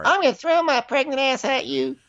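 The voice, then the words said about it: Impression of Portia. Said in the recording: “my impersonation of her ... Portia”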